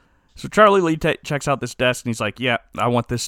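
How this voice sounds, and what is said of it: Usual voice. Nothing is said of it.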